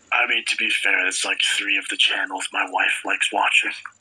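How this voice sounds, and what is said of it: Whispering. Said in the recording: “Why are you whispering? ... if I'm too loud”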